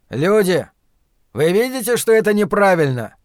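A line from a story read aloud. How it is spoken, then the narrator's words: Powerful trained shout. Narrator (Russian): закричал Ларри, и его голос, натренированный годами пения, вырвался из груди с удивительной силой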